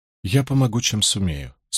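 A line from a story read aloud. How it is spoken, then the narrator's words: Calm. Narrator (Russian): спокойно сказала Айс Седай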